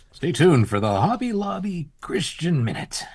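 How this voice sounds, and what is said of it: Announcer-style radio voice. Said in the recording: “That was a good radio voice.”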